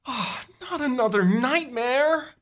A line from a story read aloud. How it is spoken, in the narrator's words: You moan